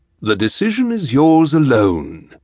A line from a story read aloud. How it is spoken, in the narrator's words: he said